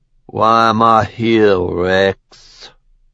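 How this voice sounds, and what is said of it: Thick Cajun drawl. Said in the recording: “His voice thick with a Cajun drawl, he rolled the last word out like a barbed insult.”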